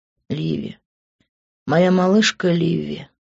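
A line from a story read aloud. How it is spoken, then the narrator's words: Tender whisper. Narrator (Russian): нежно прошептал он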